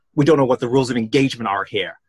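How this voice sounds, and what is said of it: Attempted American accent. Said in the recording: “That was meant to be an American accent. I do apologise.”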